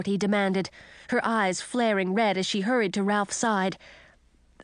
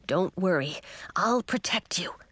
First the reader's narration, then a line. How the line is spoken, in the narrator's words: whispered